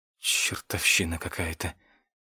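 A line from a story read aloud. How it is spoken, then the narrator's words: Hissed. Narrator (Russian): прошипел я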